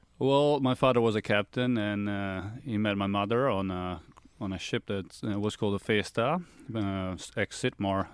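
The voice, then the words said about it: Partly Australian-sounding accent. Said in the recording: “that accent, it doesn't sound like a ... I'm half Australian, so I've been told that I've got a very interesting accent”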